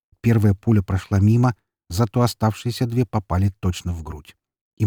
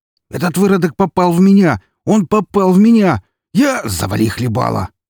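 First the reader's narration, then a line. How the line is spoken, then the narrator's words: Barked, familiar voice. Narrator (Russian): рявкнул знакомый мне голос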